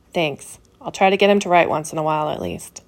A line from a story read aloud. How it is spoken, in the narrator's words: as he relaxed a little from all that broken tension, he found it in himself to softly say